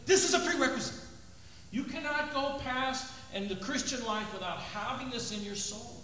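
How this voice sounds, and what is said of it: Loud, yelling preaching delivery. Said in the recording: “why I'm yelling at you so much, as my wife says”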